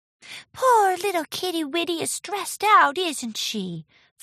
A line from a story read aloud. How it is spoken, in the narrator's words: cooed